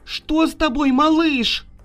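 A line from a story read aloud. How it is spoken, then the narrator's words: Mother shouting. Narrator (Russian): закричала мама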